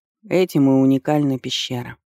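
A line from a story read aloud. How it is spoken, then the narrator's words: Weary. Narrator (Russian): устало ответил муж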